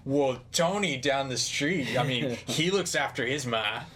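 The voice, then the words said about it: Poorly done American accent. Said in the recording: “that was a horrible collaboration of accents. And I apologize. I'm not good at American accents.”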